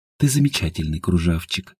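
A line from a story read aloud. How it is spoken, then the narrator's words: Drowsy whisper. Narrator (Russian): прошептала Едвига, понимая, что вот-вот отключится и уснет беспробудным сном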